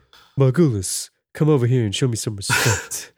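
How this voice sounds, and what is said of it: Imitates another person's voice. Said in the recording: “can you run that back in a Seagal accent for me, please? ... Perfect.”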